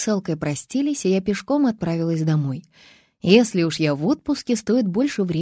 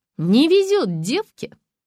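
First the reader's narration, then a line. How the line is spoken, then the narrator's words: Wry snort. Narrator (Russian): хмыкнула Элка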